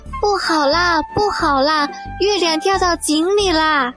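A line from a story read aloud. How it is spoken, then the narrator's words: Frightened monkey shouting. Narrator (Chinese): 小猴子吓得大声叫喊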